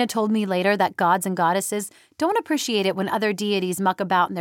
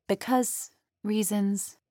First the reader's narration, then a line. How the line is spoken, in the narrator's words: said softly